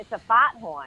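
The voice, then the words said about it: Put-on Boston accent. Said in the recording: “In a Boston accent”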